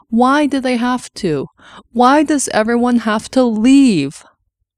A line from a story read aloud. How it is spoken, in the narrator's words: This last was a muffled wail as she pressed her face into the doctor's chest